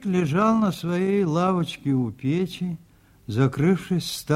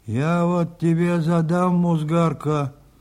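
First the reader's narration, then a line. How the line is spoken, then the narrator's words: Grumbling old man. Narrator (Russian): заворчал старик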